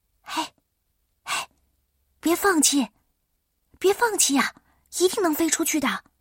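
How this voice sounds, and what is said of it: Speaking softly, quietly. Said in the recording (Chinese): “我小声的说”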